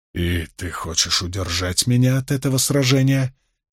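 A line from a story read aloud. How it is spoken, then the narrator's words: Quiet question. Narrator (Russian): тихо спросил Ранд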